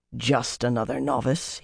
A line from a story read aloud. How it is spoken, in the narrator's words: he murmured